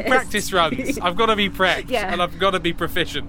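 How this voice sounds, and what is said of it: Silly character voice. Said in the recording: “silly voice”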